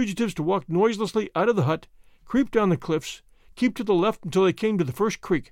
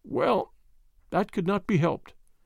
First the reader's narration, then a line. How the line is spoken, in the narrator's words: he said gently